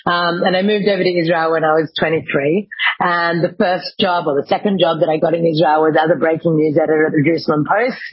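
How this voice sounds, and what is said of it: Australian accent. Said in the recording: “I'm Australian, as you can probably tell from my accent,”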